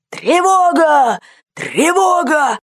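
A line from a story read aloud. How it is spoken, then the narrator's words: Shouting. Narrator (Russian): генерал закричал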